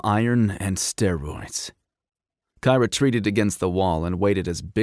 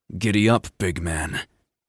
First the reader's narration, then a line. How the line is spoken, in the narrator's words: he sneered under his breath